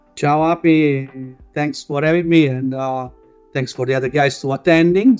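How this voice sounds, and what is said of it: Italian accent. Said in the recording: “Italian, as you can guess from my accent”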